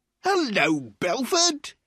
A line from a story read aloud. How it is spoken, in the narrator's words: he cried loudly